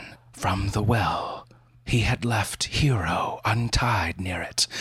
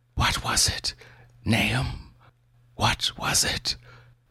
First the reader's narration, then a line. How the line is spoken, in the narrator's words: whispered